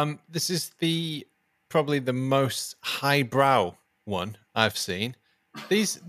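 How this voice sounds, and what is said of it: Usual voice. Nothing is said of it.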